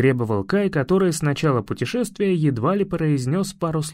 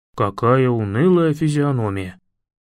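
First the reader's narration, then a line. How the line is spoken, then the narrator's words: Groaning. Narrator (Russian): простонал Лави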